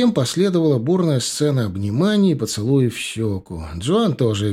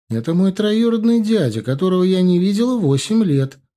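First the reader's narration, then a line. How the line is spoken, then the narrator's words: Cheerful chirping. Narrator (Russian): радостно щебетала Джоан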